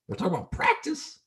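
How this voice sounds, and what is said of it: Poor Allen Iverson impression. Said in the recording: “Allen Iverson press conference... That was a horrible impression”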